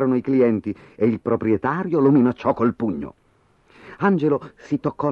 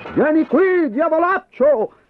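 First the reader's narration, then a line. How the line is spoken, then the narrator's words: Man shouting after. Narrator (Italian): Gli gridò dietro un uomo al quale aveva infranto la vetrina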